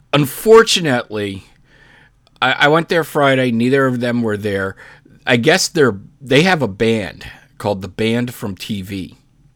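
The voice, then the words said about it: Hoarse, fading voice. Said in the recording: “I'm losing my voice for some reason.”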